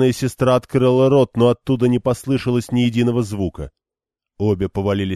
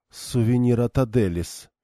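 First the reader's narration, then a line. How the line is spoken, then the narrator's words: Whispered. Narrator (Russian): шепнула Ван Дэнни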